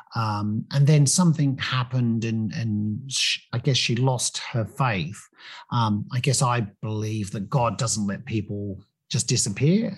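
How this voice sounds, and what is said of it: English accent. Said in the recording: “you probably may have picked up from the accent that I grew up in England”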